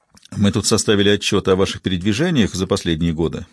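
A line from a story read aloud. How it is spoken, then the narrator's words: Plain. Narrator (Russian): сказал Баум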